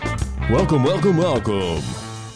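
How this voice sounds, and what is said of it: Booming radio announcer voice. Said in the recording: “That was a real radio voice ... you're trying to sound like Alex Jones”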